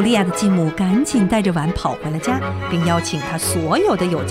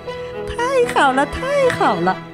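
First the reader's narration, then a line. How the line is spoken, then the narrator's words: Laughing. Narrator (Chinese): 他笑了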